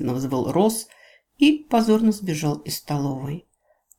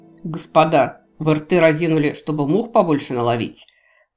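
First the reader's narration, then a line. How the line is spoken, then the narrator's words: Agitated growl. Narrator (Russian): прорычал, выскочив, как ошпаренный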